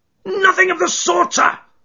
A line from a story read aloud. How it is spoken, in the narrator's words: screamed the little man